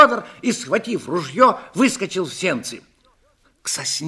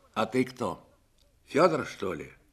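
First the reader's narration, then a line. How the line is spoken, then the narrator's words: Quiet question. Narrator (Russian): спросил человек тихо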